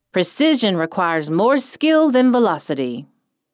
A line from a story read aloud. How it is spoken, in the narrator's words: Seth yelled